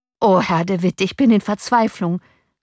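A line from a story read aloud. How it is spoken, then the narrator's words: Called out. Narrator (German): rief der Torwart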